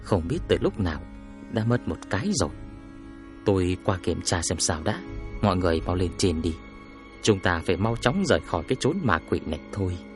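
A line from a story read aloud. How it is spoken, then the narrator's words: Quiet, soft. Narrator (Vietnamese): Tôi lo A Hương nghe thấy sẽ sợ hãi, liền nói nhỏ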